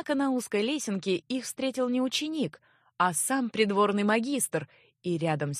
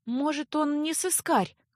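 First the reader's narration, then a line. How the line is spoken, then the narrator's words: Timid. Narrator (Russian): Робко попыталась защитить незнакомца Леа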